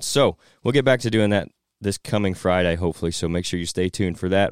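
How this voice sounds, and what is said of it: Weak, recovering hoarse voice. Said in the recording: “As you can hear, my voice is coming back. It was gone at the end of this week ... without my voice drying up on me”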